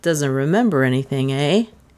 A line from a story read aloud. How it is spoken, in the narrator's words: said dryly